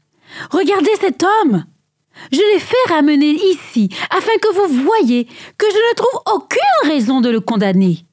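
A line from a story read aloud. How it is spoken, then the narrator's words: Exclaiming. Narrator (French): Pilate s'écria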